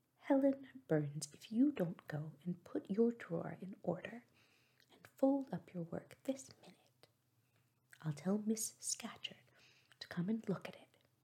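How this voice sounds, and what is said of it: Strong Cumberland accent. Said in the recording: “exclaiming in a strong Cumberland accent”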